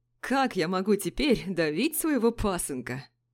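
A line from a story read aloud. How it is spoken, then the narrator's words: Loud guffaw. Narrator (Russian): захохотал Юсупов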